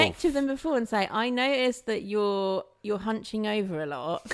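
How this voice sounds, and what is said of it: Usual voice. Nothing is said of it.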